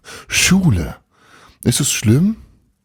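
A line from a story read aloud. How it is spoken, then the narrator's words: Called out. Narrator (German): rief Frau Wilhelm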